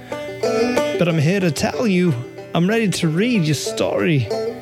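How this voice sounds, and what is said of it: Crackly, ragged old-man voice. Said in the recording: “my voice may be a little crackly and ragged as an old oak tree, but I'm getting a little old”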